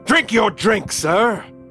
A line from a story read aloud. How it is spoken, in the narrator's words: screamed again